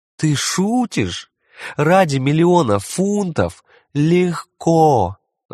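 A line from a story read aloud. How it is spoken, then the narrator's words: Moaning. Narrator (Russian): застонала та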